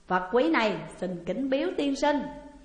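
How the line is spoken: Laughing, delighted. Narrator (Vietnamese): Thích Chí cứ cười lớn, nói

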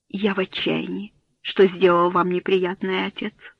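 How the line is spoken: Plain. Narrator (Russian): ответил Генри

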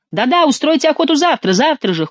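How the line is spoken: Nobles shouting in chorus. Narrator (Russian): хором закричали дворяне

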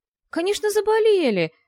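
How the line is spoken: Exclamation. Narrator (Russian): воскликнул он

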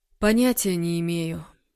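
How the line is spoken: Tired. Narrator (Russian): устало сказал Егор

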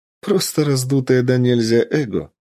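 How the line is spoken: Laughing. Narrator (Russian): рассмеялась Ольга

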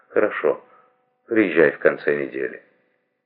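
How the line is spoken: Forced calm, restrained. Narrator (Russian): Ей стоило большого труда сказать ему спокойным и сдержанным тоном

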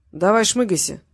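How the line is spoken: Grumbled. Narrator (Russian): проворчал Кострома

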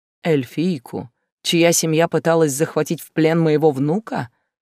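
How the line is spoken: Contemptuous snort. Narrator (Russian): Мужчина презрительно хмыкнул

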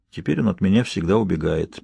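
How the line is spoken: Sad. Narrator (Russian): печально проговорил Альберт

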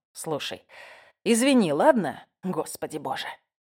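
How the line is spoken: Defensive growl. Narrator (Russian): Он прорычал, как будто я осыпала его молчаливыми обвинениями

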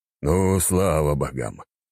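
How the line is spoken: Relieved exhale. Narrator (Russian): князь облегченно выдохнул

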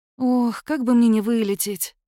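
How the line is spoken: Heavy loud sigh. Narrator (Russian): тяжко и громко вздохнула

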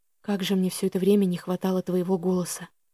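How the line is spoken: Whispered reply. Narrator (Russian): прошептал Элиас в ответ

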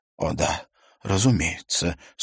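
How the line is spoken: Embarrassed, forced out. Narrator (Russian): смущенно выдавил из себя Хельге Клеменсен, словно только что вспомнил о давно забытой договоренности

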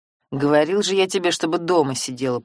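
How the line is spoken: Grumbling. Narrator (Russian): проворчал Семен

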